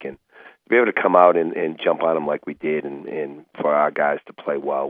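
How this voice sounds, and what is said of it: Boston accent. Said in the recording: “I recognize a Boston accent in a second.”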